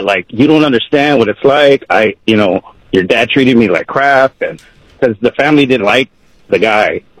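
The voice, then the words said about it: Emotional, choked-up voice. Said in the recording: “I get a little emotional”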